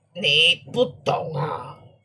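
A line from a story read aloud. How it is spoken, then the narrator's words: Hoarse voice. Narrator (Chinese): 豫让用沙哑的声音说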